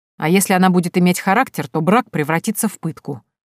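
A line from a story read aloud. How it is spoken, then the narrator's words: Irritated reply. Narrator (Russian): раздраженно ответил Мамука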